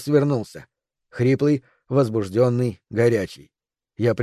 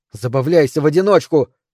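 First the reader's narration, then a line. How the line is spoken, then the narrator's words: Shouting. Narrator (Russian): крикнула Микаэла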